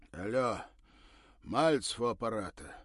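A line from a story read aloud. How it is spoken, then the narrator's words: Loud husky voice over phone. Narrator (Russian): раздался в трубке зычный с хрипотцой голос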